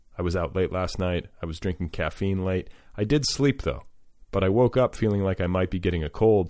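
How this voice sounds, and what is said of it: Slightly husky voice. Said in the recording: “Do I sound a little husky voiced? Can you detect a little bit of the infection in me?”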